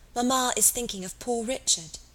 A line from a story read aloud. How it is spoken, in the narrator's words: whispered one of the girls